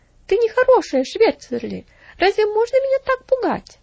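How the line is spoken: Exclaimed. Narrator (Russian): воскликнула Стефали

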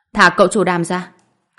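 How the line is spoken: Shout. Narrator (Vietnamese): Tôi hét lên

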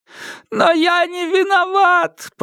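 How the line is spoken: Yelling while running. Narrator (Russian): продолжал вопить на бегу

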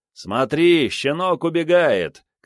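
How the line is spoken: Laughing shouts, companions. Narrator (Russian): кричали его товарищи, смеясь

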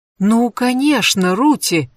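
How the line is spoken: Delighted warm exclamation. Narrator (Russian): воскликнула она таким голосом, словно увидела близкую подругу, с которой не встречалась бог знает сколько лет

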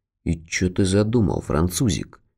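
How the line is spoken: Barely audible grumble. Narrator (Russian): Пробурчал еле слышно

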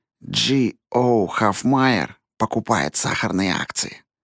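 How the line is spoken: Secretive quiet whisper. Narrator (Russian): тихо, чтобы никто другой не услышал, прошептал

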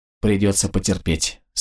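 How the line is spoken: Sympathetic sigh. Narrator (Russian): сочувственно вздохнул отвлекшийся от раздумий Вячко

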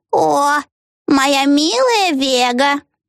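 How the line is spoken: Nasty squeaky cooing. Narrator (Russian): проворковала мисс Хекс гадким писклявым голосом

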